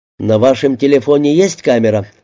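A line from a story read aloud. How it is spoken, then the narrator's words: Plain question. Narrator (Russian): спросил он Умбали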